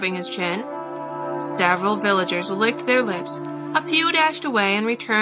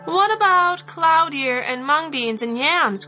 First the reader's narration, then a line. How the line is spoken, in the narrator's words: cried some others